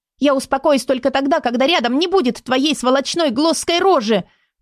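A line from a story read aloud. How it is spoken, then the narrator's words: Anguished shout. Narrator (Russian): выкрикнула надрывно Лиссандра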